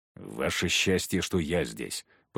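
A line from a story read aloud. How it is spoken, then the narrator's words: Grumbled. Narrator (Russian): проворчал Егор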